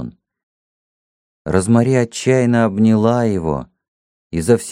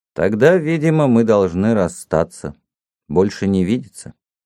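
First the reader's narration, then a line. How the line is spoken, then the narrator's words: Gloomy, somewhat relieved. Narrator (Russian): Мрачно, но без протеста, даже с некоторым облегчением, он сказал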